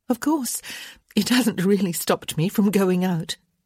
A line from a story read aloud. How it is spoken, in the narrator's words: she said with a nervous laugh